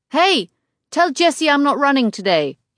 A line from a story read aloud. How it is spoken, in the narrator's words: he shouts after me